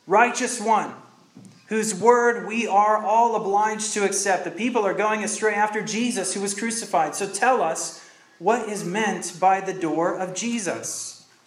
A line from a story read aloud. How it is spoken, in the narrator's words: They shouted to him